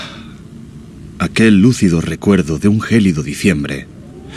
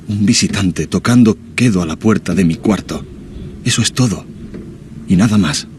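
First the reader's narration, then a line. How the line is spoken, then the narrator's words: Murmuring softly. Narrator (Spanish): dije musitando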